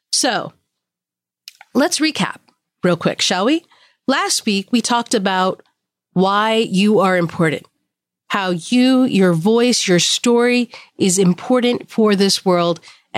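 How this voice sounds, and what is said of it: Sick, slightly altered voice. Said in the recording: “my voice sounds a little different. I am under the weather. I'm on antibiotics. So I'm on the mend ... this is actually the best I've sounded”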